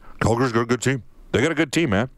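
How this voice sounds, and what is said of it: Imitates another person's voice. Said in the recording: “I'll do my Mike Babcock imper- uh, impersonation.”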